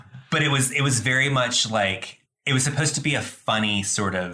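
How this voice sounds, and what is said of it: Usual voice. Nothing is said of it.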